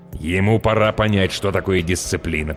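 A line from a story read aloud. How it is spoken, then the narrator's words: Grumbling parent. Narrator (Russian): проворчал родитель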